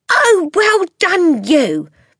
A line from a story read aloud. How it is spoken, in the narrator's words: Matilda cried